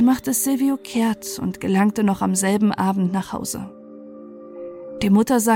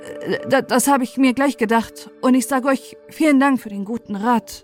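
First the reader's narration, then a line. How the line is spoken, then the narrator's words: Embarrassed stammering. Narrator (German): Silvio wurde rot bis über die Ohren und sagte stotternd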